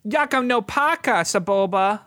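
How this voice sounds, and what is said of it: Whiny young boy voice. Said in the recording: “That was my Anakin impression. ... It's a little whiny, which is perfect.”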